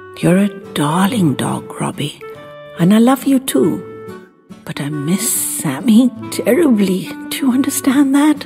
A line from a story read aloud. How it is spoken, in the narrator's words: whispered